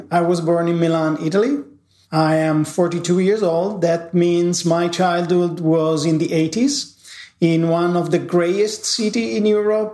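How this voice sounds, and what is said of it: Italian accent. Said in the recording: “as you hear from my accent, I am from Italy”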